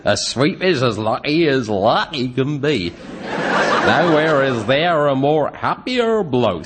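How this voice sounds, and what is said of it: Exaggerated fake Cockney accent. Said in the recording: “That ridiculous Cockney accent.”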